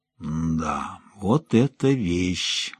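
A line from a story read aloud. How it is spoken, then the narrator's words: Reverent drawl. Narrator (Russian): благоговейно протянул Рутински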